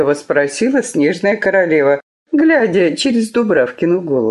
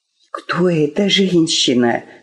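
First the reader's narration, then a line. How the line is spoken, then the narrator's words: Whispering girls. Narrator (Russian): зашептали девчонки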